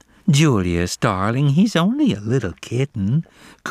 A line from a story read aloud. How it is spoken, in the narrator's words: cooed Jasmine in her milk-in-the-morning voice